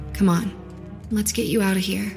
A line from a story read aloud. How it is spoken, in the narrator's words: she said gently